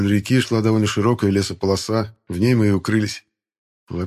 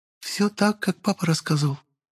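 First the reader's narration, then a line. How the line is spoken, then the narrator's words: Whisper in ear. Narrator (Russian): шепотом произнесла мне на ухо Ликата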